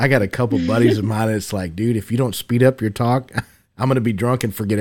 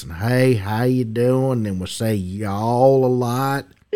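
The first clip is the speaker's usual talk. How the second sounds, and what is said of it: Slow put-on Texas drawl. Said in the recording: “that old Texas drawl ... we slow down and we talk like this”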